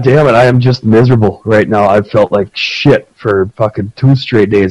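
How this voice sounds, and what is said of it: Rough, raspy sick voice. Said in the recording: “I sound like I've smoked about 40 packs of cigarettes. ... I sound like my old man.”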